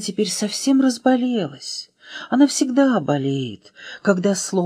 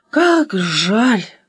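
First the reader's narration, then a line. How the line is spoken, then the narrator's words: Sighed. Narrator (Russian): вздохнула Аля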